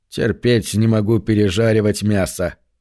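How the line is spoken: Grumbled. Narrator (Russian): проворчал он

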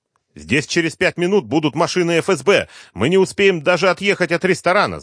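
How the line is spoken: Angry curt. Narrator (Russian): зло бросил Кочаевский

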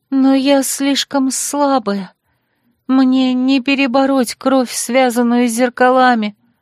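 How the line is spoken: Sad farewell, female dragon. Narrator (Russian): продолжила грустно прощаться драконица

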